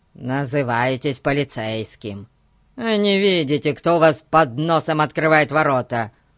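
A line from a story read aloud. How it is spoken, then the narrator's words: Grumbling. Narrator (Russian): проворчал Гун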